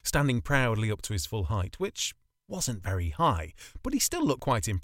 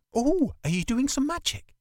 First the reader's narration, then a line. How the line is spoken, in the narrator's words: She asked excitedly